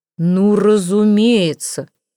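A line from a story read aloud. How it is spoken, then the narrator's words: Roar. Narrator (Russian): взревел он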